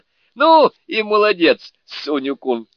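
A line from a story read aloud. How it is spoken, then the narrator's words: Man shouting. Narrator (Russian): крикнул он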